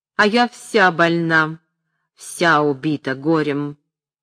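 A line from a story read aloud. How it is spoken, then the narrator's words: Mocking then stern, old woman. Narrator (Russian): насмешливо заметила старуха и строго продолжала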